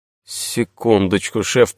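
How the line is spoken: Muttered. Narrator (Russian): пробормотал Сулим

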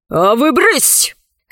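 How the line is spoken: Overseer's harsh bark. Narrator (Russian): рявкнула на рабынь надсмотрщица

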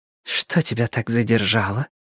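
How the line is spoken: Whisper. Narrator (Russian): прошептала она

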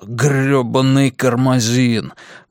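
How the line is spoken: Muttered under breath. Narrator (Russian): буркнул он себе под нос

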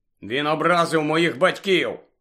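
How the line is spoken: Grumbled. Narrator (Ukrainian): буркнув Джордж

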